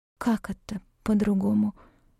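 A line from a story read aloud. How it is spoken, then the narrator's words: Barely audible breath. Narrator (Russian): выдохнула едва слышно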